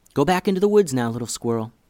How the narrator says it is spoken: whispered Hallie

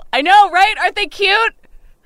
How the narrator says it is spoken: I yell

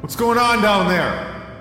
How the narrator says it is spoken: Dante shouted

